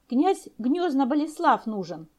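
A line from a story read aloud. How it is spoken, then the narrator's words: Snorting guard. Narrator (Russian): охранник фыркнул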